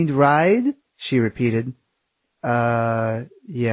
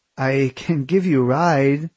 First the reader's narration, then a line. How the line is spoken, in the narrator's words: she said with a slight laugh at her awkwardness